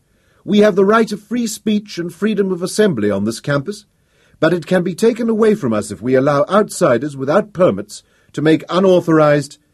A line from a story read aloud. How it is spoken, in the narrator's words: called out